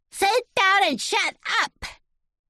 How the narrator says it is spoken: Shout

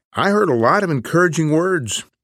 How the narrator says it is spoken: Shailene said excitedly

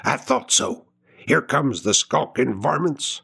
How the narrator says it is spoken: whispered the teamster

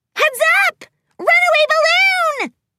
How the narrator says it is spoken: Pinkie Pie squealed

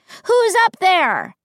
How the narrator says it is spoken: cupped my hands over my mouth, and shouted up

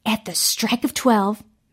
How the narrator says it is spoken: Mary whispered

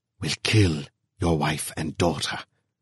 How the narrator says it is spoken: whispered a voice

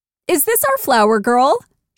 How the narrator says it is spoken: exclaimed

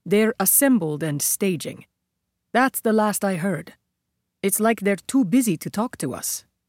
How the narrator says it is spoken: He added in a graver tone

